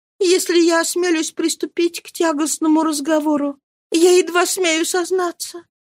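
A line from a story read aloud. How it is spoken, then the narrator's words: Weak, trembling voice. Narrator (Russian): начала она слабым, дрожащим голосом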